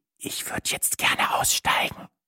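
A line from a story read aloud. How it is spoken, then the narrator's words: Whispered. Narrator (German): flüsterte ich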